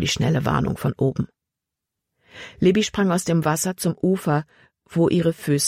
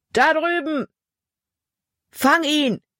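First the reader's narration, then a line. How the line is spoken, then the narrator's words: Calling out. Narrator (German): rief ein anderer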